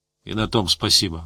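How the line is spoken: Grumbled. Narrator (Russian): буркнул Гусев

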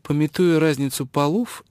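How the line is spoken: Snide, smiling. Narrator (Russian): ехидно улыбнулась Джен

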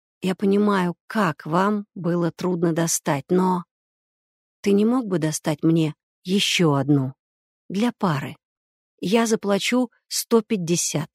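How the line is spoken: Quiet. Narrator (Russian): тихо произнес

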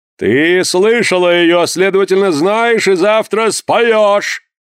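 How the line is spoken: Thunderous declaration. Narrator (Russian): заявил, наконец, громовым голосом Порпора

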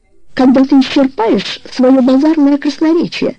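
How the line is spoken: Trembling voice. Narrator (Russian): сказала леди Самарец дрожащим голосом

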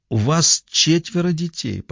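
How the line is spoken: Tearful, breaking voice. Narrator (Russian): продолжала мать Крисси, готовым сорваться голосом, глядя на Петти сквозь слезы

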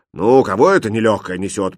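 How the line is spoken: Grumbling cook. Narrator (Russian): проворчал повар

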